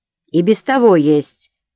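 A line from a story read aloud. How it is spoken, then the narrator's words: Rude interruption. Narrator (Russian): грубо перебил Беккер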